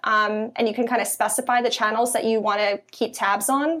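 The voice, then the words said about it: Philadelphia accent. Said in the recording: “my Philly accent ... it's a philly thing”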